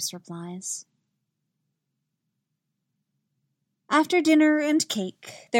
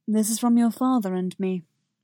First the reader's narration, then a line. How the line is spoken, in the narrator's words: he says